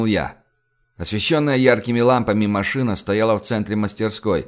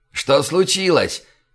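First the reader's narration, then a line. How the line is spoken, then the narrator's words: Shouted. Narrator (Russian): крикнул он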